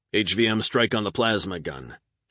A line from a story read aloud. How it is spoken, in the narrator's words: Fardell snapped